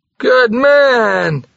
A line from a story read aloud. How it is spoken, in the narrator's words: he cried